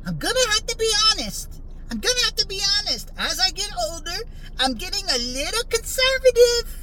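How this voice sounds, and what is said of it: Poor Mike Tyson impression. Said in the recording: “That's actually a horrible Mike Tyson impersonation.”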